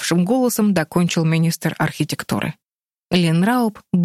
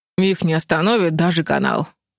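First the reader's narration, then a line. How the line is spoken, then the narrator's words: Gloomy. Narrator (Russian): мрачно добавил министр рыбной ловли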